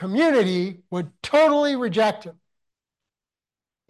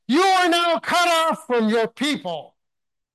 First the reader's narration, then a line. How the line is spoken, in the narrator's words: They would yell